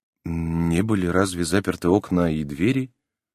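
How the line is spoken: Quiet question. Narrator (Russian): Клаус Генрих спросил тихо

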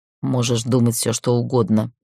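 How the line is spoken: Through gritted teeth. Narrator (Russian): процедила сестра

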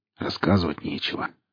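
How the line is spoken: Grumbling mutter. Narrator (Russian): пробурчал Старпом

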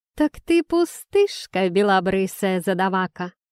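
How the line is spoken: Coarse laugh from behind. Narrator (Russian): грубо хохотнула за моей спиной Талика

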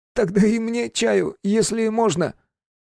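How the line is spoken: Groaning. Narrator (Russian): Он сильно застонал и сказал

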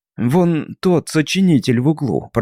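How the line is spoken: Mumbled. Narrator (Russian): промямлил Харт

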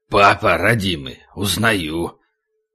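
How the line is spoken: Mumbling. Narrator (Russian): только и смог пробормотать

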